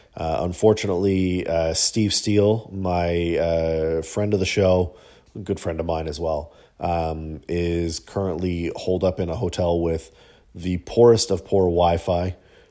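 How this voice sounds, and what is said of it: Hoarse voice. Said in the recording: “My voice is a little hoarse because I've been under the weather.”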